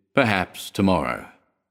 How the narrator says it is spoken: he murmured

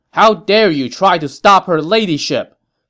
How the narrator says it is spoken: Zhou Shan shouted

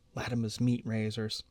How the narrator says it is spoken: she whispers in answer to his arched eyebrows

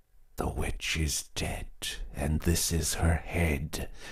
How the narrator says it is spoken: whispered the husband

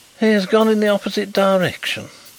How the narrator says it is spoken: exclaimed Mr

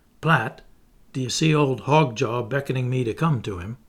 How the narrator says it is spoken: she exclaimed in a low voice, suddenly

